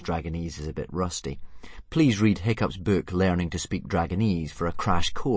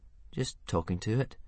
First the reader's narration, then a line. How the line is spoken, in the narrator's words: mumbled Hiccup, very embarrassed